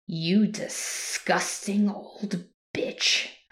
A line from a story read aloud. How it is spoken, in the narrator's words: growled